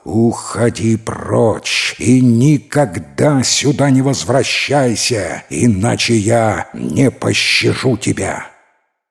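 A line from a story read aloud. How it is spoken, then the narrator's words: Impatient lion's roar. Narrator (Russian): терпение льва иссякло, и он зарычал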